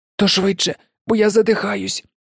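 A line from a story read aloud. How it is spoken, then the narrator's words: Hoarse, choked while struggling. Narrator (Ukrainian): прохрипів Гаррі, відбиваючись від пагона, що закручувався йому навколо грудей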